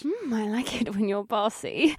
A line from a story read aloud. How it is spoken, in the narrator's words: she moaned